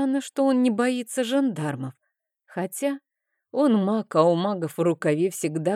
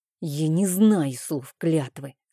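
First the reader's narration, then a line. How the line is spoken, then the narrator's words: Angry, through clenched teeth. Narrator (Russian): сквозь зубы зло процедила я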